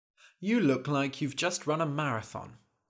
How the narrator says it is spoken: said the wizard

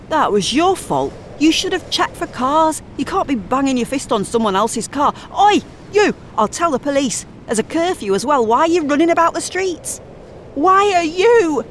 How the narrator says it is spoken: A man striding towards her shouts

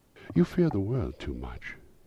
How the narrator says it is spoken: she answered gently

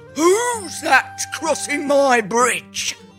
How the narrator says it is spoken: Troll roared

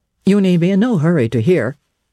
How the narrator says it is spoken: he said

